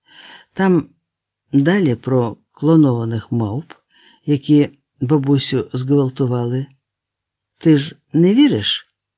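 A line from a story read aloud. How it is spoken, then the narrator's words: Sighing. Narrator (Ukrainian): Віскас зітхнув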